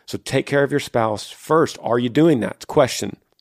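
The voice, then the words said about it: Raised, loud voice. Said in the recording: “My voice is getting loud, but I'm not mad.”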